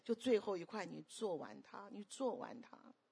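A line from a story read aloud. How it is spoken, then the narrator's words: Helpless, gentle, insistent. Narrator (Chinese): 那徐师母就很无奈，但是很温柔，很坚持说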